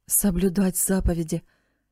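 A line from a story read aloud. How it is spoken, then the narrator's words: Sad mutter under breath. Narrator (Russian): печально пробормотал он себе под нос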